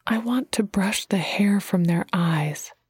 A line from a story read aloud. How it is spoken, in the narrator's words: spoke softly